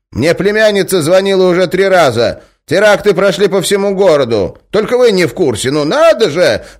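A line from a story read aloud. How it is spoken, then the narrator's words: Yelling. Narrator (Russian): вопила она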